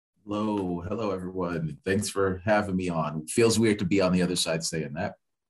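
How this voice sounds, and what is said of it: Thick, velvety radio announcer voice. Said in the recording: “velvety voiced ... playing the voice on real thick ... doing his best radio voice”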